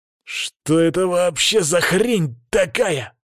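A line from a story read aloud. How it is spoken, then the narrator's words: Growled. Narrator (Russian): прорычал я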